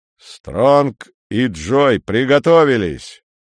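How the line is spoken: Thunderous voice. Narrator (Russian): громовым голосом сказал Рудак

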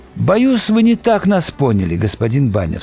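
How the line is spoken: Plain. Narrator (Russian): сказал он

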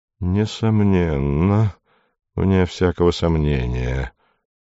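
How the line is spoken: Breathy muttering. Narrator (Russian): дышал за моей спиной, бормоча

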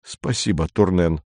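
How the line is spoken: Muttered. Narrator (Russian): пробормотал он

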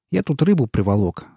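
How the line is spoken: Forced cheerful voice. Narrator (Russian): сказал он нарочито бодрым голосом

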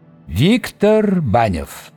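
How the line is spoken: Formal lofty proclamation. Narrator (Russian): провозгласил долговязый казенно возвышенным голосом

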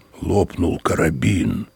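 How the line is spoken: Muffled voice. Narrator (Russian): все тем же глухим голосом продолжал владелец

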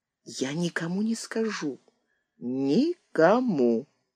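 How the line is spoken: Whisper. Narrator (Russian): прошептал

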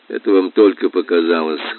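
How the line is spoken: Cold. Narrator (Russian): холодно сказал я

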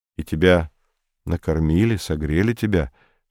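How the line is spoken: Even-toned question. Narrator (Russian): спросил Комов ровным голосом

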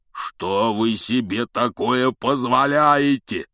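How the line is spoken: Thunderous roar. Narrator (Russian): прогремел он так, что все трое подпрыгнули

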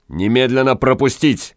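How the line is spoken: Barked command. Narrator (Russian): гаркнул странник

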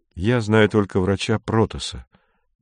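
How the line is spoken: Sad. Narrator (Russian): печально сказал Кондратьев

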